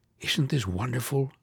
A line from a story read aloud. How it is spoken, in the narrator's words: whispered Emma, her lips on his